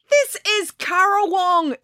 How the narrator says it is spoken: exclaimed

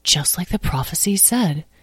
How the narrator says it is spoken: muttered Tom

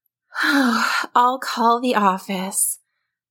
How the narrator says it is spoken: Tim's mom sighed

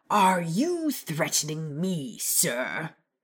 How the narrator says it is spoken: Vernon asked so loudly that passerby actually turned to stare

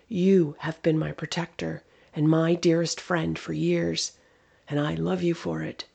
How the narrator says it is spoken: said softly

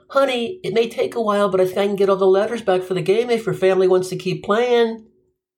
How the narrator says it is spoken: I yelled out

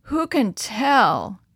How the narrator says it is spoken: moaned one of the men

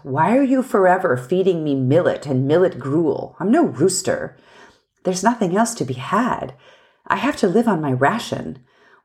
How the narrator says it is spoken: He grumbled

